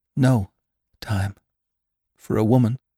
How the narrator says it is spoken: exclaimed Jane brokenly

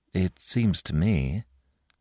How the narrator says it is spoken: said Mike gloomily

